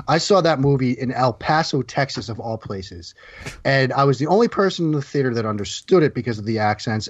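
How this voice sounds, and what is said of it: Boston accent. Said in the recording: “it's probably the Boston accent that can be intimidating at times ... I get a lot of confused looks”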